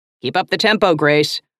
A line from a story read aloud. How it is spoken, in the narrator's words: hollered a stout man in the front row